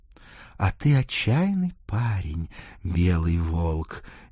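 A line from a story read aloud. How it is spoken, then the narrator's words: Tender whisper. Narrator (Russian): нежно прошептала Дана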